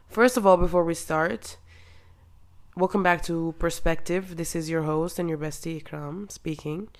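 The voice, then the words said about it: Sick, cracked, thick low voice. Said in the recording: “I'm a little bit sick, so that's why my voice is cracked and it's not really perfect ... it's really thick and like I sound like a boy right now”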